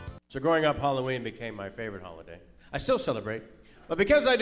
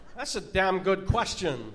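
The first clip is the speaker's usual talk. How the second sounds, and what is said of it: Christopher Walken impression. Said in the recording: “I do celebrity impersonations ... they got Christopher Walken”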